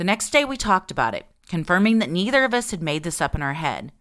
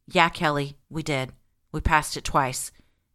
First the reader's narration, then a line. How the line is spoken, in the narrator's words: replied solemnly